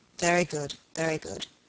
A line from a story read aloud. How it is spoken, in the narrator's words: muttered the baronet